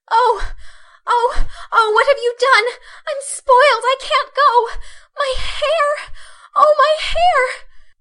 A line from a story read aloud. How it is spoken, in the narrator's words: wailed Meg, looking with despair